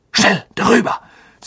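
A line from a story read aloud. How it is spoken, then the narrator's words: Urgent hiss. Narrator (German): zischte Harry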